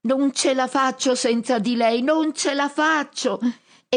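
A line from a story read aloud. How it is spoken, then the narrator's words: Shrieking from above. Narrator (Italian): lui strilla dall'alto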